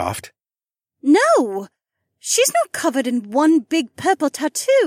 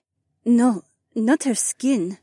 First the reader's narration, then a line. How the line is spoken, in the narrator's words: the Korean whispered